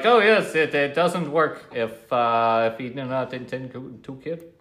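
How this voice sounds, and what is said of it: Put-on generic foreign accent. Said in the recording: “I just try to do a generic foreign accent, just pick whichever country ... Ethiopian Indian accent ... It's all of it. It's all mixed.”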